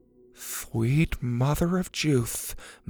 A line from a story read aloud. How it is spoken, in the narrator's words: Mac mumbled